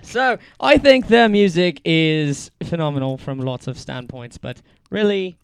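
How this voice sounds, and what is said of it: Put-on British accent. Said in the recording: “I'm going to do my British accent for this one ... I can probably pull this off ... I'm done with the accent.”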